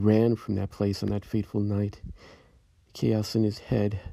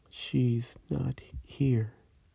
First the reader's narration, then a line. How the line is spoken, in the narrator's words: In a hollow, empty voice, she said